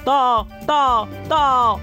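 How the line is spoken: Repeated shouting. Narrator (Chinese): 喊到第68遍的时候

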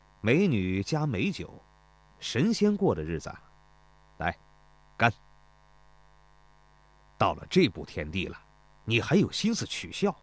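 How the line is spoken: Laughing. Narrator (Chinese): 孙膑说着，笑道

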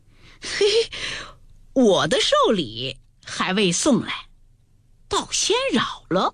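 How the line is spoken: Laughing. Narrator (Chinese): 宝玉因笑道

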